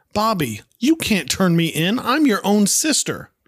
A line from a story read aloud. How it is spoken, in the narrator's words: Cindy, getting upset, begins raising her voice, saying